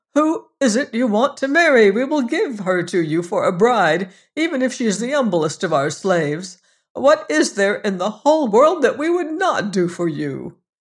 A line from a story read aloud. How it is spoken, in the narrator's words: cried the king